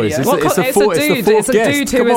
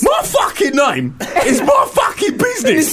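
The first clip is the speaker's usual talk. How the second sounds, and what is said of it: Put-on Cockney accent. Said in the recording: “Do you want to do your Cockney voice”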